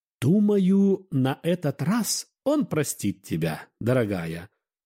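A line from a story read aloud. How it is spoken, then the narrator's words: Plain. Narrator (Russian): ответила няня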